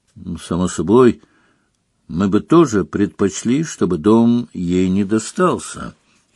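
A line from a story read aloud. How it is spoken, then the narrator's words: Calm. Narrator (Russian): спокойно сказал Дамблдор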